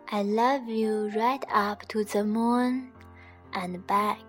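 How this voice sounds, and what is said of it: Soft whispered voice. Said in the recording (Chinese): “小声”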